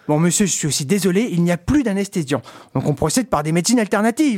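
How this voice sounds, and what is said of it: Put-on accent in comic voice. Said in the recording (French): “Désolé pour l'accent.”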